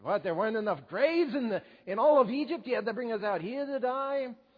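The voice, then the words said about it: Brooklyn Jewish accent. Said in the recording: “It's always funnier when you do it with kind of a Brooklyn Jewish accent.”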